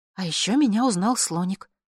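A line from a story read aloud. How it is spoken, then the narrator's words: Plain. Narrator (Russian): сказала я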